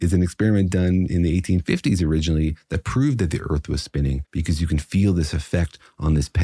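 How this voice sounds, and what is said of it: Usual voice. Nothing is said of it.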